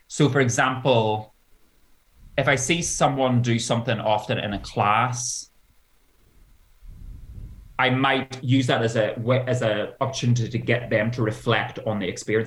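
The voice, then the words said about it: Northern Irish accent. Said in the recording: “It's the Northern Ireland accent.”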